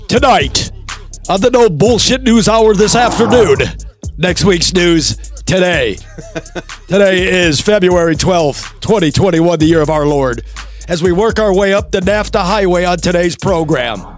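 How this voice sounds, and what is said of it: Mock news anchor voice. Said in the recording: “doing his bullshit anchor voice ... my Anchorman voice”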